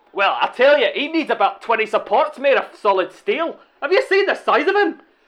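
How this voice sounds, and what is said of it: Put-on Scottish accent. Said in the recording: “Scottish Burnley fan ... I can't quite place your accent”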